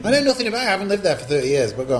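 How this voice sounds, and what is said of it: Manchester English accent. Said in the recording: “I detect an accent ... I'm originally from Manchester”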